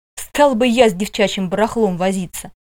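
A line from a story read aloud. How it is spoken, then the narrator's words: Scornful snort. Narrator (Russian): Эрихард хмыкнул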